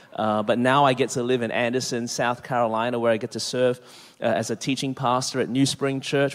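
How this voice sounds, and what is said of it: Australian accent. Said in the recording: “born and raised in Melbourne, Australia. That's the reason my voice is this way.”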